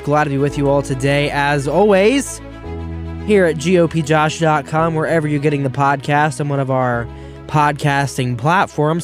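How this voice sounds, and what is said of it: Voice affected by a cold. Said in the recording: “hear it in my voice ... the way I'm speaking today ... a little under the weather ... the cold ... a sore throat”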